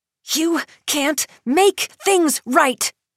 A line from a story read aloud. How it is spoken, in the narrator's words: she screams